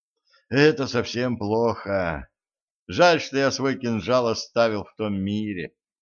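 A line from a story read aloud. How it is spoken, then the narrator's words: Heavy sigh. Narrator (Russian): тяжко вздохнул Ланс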